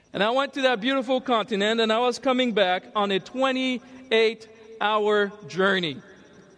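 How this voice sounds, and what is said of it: African English accent. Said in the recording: “If you could tell that I have an accent, that's because I am an African.”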